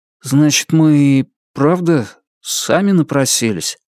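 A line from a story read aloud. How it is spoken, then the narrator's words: Hoarse strained words. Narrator (Russian): хрипло выдавил из себя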